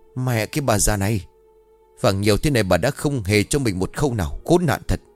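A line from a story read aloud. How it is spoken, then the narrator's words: Shouting through gritted teeth. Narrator (Vietnamese): Nó nghiến răng quát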